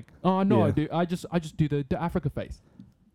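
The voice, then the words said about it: Very British accent. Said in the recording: “he spoke in like a very British accent”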